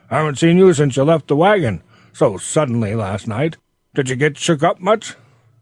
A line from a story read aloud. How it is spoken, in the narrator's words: shouted Ben in his cheery, hearty tones